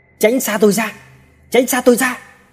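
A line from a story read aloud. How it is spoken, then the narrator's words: Terrified repeated shouting. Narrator (Vietnamese): kinh hãi luôn miệng hét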